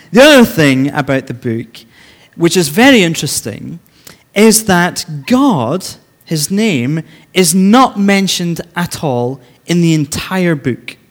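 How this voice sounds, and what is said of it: Speaks English with an accent. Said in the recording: “If you don't understand my accent right now”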